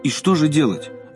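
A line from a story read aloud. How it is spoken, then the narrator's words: Desperate exclamation. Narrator (Russian): в отчаянии воскликнули дамы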